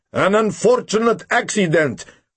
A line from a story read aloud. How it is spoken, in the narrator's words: Hoover shouted above the howl of the wind